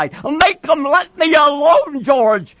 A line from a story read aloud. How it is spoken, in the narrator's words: he cried